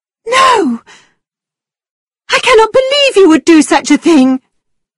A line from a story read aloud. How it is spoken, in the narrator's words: cried Catherine